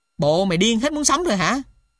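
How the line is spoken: Loud swearing. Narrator (Vietnamese): lớn tiếng chỉ thề

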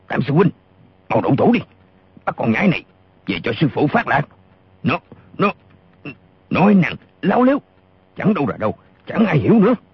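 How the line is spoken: Furious loud shout. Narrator (Vietnamese): giận điên lên, y quát to

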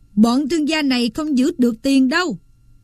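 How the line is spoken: Roaring. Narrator (Vietnamese): Rinaldo gầm lên

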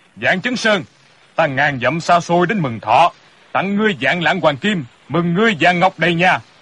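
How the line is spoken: Big man's booming laugh. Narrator (Vietnamese): người kia thân hình cao lớn, quai phong lẫm lẫm, ha ha cười lớn

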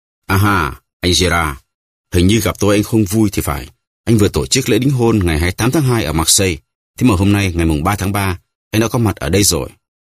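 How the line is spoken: Smiling. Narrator (Vietnamese): mỉm cười bảo

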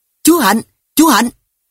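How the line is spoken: Loud shouting together. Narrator (Vietnamese): Tôi và anh gánh miệng hét to

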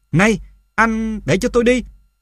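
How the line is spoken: Yelled. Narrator (Vietnamese): tôi la lên

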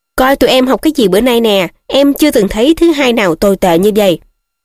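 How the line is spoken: Grumbling irritably. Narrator (Vietnamese): Ron gắt gỏng

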